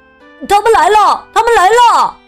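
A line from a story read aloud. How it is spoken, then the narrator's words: Children shouting. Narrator (Chinese): 孩子们喊起来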